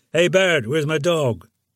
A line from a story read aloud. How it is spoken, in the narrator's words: Suddenly remembering something, I shouted out to the new dispatcher trainee